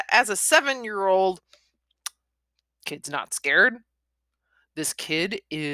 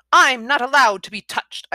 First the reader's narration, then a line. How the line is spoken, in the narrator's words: I snapped